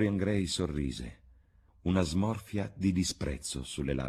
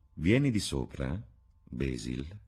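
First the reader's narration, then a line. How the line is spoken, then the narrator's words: Quiet. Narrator (Italian): disse con voce quieta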